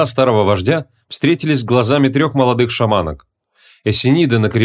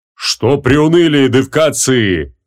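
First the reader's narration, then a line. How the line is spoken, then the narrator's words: Loud bark. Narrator (Russian): гаркнул, заметив тоску, витающую в воздухе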